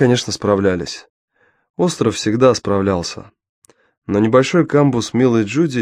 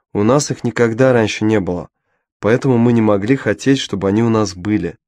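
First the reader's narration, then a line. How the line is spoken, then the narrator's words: Plain. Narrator (Russian): ответил Мао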